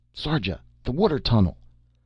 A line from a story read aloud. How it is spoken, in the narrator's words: He shouted suddenly